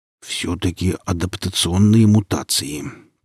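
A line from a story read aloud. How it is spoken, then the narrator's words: Muttered. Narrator (Russian): пробормотал Велес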